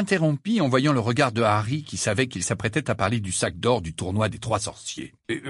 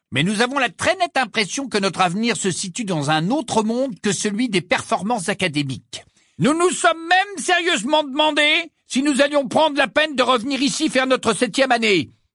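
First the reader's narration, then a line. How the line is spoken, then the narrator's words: Loud, trumpeting. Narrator (French): dit Georges d'un ton claironnant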